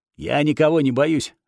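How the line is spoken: Barked. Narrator (Russian): рявкнул Вырви глаз

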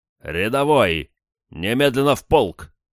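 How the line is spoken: Barked. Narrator (Russian): рявкнул он

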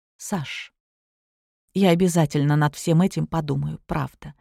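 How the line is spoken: Quiet. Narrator (Russian): произнесла тихо

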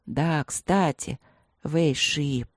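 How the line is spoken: Tiger's singsong, pensive murmur. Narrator (Russian): певуче и задумчиво пробормотал тигр

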